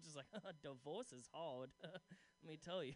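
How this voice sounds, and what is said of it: Middle-aged divorcee character voice. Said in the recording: “She dressed me like a middle-aged divorcee who cuts his own hair... I just love doing that voice”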